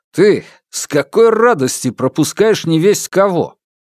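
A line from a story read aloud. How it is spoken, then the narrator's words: Barking shout. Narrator (Russian): он ... гаркнул простое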